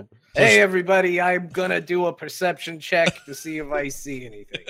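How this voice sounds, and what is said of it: Mario character voice. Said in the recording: “I might do a voice ... You're now Mario.”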